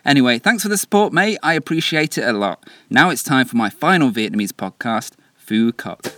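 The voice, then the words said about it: Mixed English regional accent. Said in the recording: “what's up with your voice, by the way? Your accent is f***ed ... my accent is a veritable melting pot of influences. Born in Essex, Mancunian mother, lived in France and Sheffield.”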